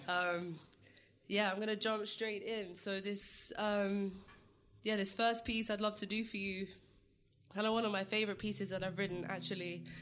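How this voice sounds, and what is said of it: Congested, sick-sounding voice. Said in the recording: “sorry about my voice, my sinuses, I'm a little sick”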